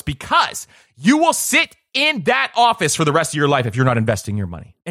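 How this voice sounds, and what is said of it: Passionate, emphatic delivery. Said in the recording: “hear the passion in my voice”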